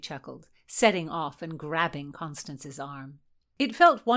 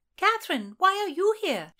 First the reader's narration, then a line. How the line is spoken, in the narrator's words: shouted Constance